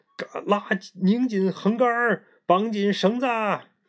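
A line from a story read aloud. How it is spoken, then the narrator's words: Shouting. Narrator (Chinese): 毛衣在喊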